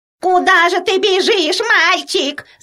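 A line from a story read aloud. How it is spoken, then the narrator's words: Old woman shouting. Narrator (Russian): закричала старушка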